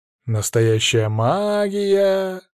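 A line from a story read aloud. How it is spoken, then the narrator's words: Sarcastic drawl. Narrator (Russian): саркастично протянул Григорий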